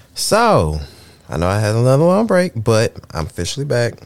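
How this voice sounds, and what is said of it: Raspy, slightly husky voice. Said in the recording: “I'm a little raspy. I'm a little jazzy tonight. I'm a little jazzy, a little raspy.”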